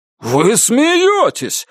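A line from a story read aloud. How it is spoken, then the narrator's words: Shouting. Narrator (Russian): Бакли уже просто кричал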